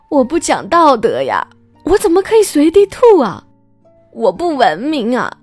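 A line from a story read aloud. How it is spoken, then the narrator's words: Shouting while crying. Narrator (Chinese): 边喊边哭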